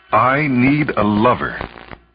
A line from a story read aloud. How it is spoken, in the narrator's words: she said firmly to herself